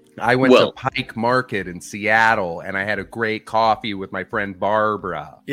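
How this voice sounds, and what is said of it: Put-on American accent. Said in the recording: “how is your American accent? I feel like yours isn't as bad as most British comedians, which is they love an over-pronunciation”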